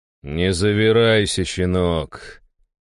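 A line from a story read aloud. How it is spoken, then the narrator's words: Icy, chilling tone. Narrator (Russian): леденящим тоном проговорил я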